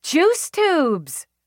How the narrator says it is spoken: She called out with incredible cheer

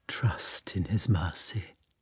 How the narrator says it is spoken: in a particularly respectful and tenderly sad voice, she said

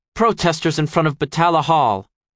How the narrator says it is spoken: she snaps

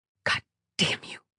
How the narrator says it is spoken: she muttered

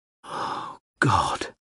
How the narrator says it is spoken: breathed to himself

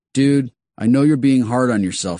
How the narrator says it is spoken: he said

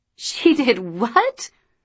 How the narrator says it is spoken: Luce almost choked on her bombolini

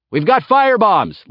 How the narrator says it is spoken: Laertes shouted

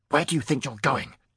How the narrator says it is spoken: he demanded in an angry whisper

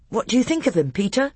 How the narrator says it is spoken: Edmund asked anxiously

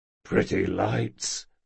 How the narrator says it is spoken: muttered Jean

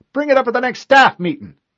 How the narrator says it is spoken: she yelled

